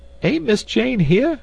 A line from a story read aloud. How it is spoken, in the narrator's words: cried Esmeralda